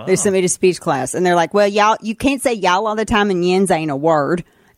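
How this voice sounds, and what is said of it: Thick Southern twang. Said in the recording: “my twang was so thick”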